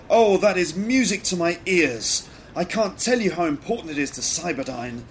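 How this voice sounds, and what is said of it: Poorly done put-on accent. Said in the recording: “my acting is awful. And my accents are really rubbish ... More bad acting and even worse accents”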